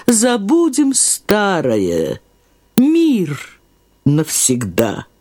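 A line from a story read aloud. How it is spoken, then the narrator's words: Warm, gracious voice. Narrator (Russian): она сказала голосом, проникнутым особенным благоволением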